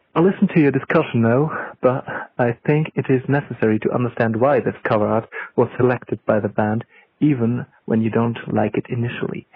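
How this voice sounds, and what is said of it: Put-on British accent. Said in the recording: “in my best British accent.”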